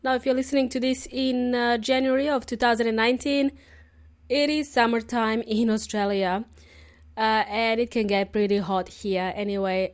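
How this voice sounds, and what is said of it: Hoarse, lost voice from a cold. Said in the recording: “If you can tell by the sound of my voice, I lost my voice. I was sick. I got a cold”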